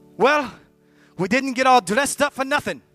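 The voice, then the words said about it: Put-on Irish accent. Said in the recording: “in my best Irish accent”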